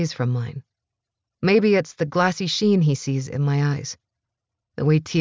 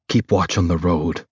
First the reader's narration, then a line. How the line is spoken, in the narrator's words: he says, his voice gruff